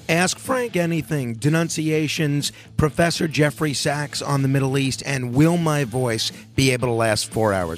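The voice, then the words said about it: Hoarse, sore-throat voice. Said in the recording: “Your voice sounds like my voice. We both got the sore throat thing going on here.”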